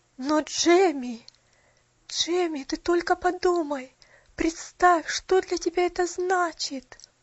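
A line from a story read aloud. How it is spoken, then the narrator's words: Trembling voice. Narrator (Russian): Дрожащим голосом произнесла миссис Мёрфи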